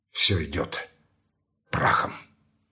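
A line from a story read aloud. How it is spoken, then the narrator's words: Barely audible. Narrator (Russian): с его уст чуть слышно сорвалось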